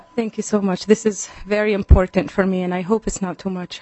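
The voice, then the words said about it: Out of breath, breathless speech. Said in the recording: “I'm out of breath”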